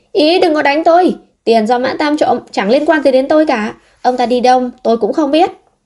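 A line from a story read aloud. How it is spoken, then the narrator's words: Feigned, exaggerated shout. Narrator (Vietnamese): Tam Lừa cũng giả vờ la lên một cách khoa trương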